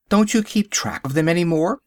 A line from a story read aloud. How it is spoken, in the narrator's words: I gasped